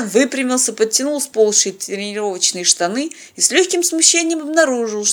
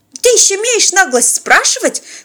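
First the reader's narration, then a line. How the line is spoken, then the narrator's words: Shrieking woman. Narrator (Russian): взвизгнула тетка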